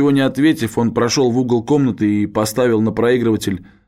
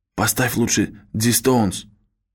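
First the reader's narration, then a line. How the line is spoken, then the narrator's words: Whisper in ear. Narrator (Russian): Кей … прошептала ему на ухо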